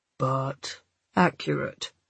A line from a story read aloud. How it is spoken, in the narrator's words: Cole said dryly